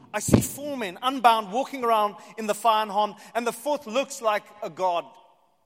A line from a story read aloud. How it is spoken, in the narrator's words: Nebuchadnezzar shouted